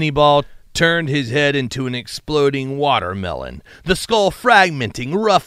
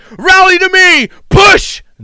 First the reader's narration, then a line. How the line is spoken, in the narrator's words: Conrad Currents picked up the muddy banner and screamed